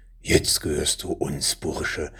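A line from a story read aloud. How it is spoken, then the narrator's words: Man hissing through teeth. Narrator (German): zischte der eine der Männer durch die Zähne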